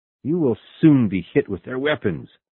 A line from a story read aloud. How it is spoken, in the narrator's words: exclaimed Captain Nemo